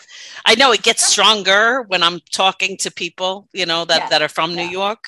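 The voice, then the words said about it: Strong New York accent. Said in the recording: “my New York accent ... it's strong”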